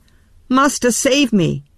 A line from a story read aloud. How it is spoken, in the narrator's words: he cried